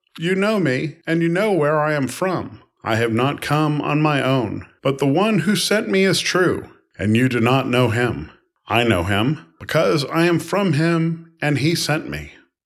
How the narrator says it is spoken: Then Jesus cried out, as he was teaching in the temple

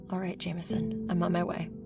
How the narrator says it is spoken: she said

